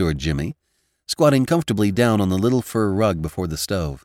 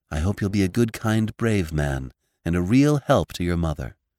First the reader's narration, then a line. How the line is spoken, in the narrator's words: said Theodora softly